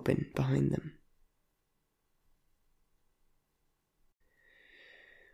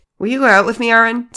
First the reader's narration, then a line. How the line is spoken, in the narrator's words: CJ blurted out